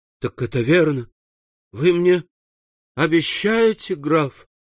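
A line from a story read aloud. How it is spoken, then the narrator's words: Rapturous exclamation. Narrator (Russian): воскликнул Максимилиан в упоении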